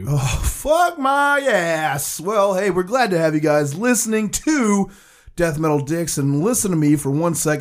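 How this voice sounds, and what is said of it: Hoarse, blown-out voice. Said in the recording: “I think my voice is gone ... I've been doing fucking radio DJ voice ... It's blown.”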